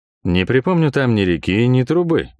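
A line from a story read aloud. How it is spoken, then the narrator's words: Grumbled. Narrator (Russian): буркнул я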